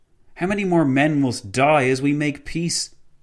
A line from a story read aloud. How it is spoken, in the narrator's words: exclaimed the President